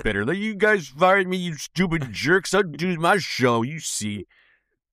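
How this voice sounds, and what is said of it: Orson Welles impression. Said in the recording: “That's Orson ... Orson Welles' impersonations.”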